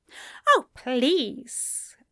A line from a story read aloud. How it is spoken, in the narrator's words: Aziraphale scoffed